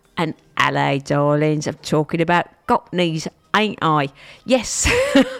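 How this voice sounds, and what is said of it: Put-on Cockney accent. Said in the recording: “in the middle of Stoke-on-Trent, I'm talking Cockney.”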